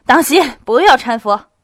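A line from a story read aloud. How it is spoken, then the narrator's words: Someone shouting. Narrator (Chinese): 有个人喊道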